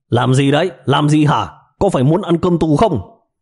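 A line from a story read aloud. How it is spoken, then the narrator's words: Shouting while shoving. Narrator (Vietnamese): Cấp dưới của đội trưởng Cù vừa hét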